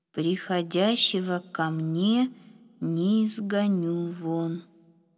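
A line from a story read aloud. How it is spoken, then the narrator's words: Slow reading aloud. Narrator (Russian): медленно прочитал Ефим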